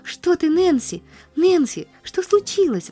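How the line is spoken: Woman's exclamation. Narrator (Russian): воскликнула она

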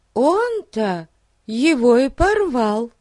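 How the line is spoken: Sudden exclamation. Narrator (Russian): вдруг воскликнула Дейзи

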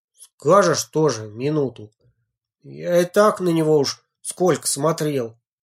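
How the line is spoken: Doubtful grumbling. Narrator (Russian): недоверчиво проворчал Леха

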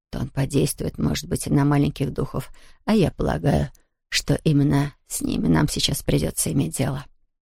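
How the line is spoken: Whispered. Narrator (Russian): прошептала она Тому

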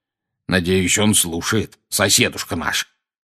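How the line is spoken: Growling. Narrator (Russian): прорычал дядя Вернон

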